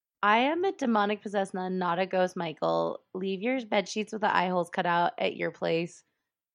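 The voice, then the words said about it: Hoarse, strained voice. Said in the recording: “as you can tell, I am losing my voice”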